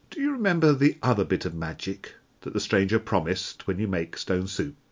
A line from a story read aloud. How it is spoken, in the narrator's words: asked